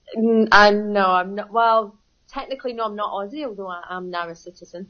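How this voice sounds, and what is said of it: Scottish Glaswegian accent. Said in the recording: “Straight away, I can tell that's not an Australian accent ... I'm from Glasgow, born and bred.”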